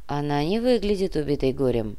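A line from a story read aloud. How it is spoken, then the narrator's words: Grumbling. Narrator (Russian): буркнул Кортес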